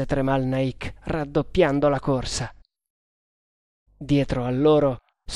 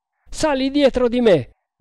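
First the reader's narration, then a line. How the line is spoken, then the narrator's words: Shouted. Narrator (Italian): gridò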